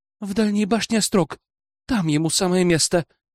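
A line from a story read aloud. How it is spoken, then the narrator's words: Breathed out. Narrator (Russian): выдохнул я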